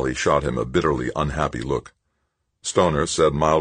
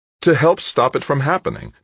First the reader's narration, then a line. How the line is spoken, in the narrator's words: Tavalera exclaimed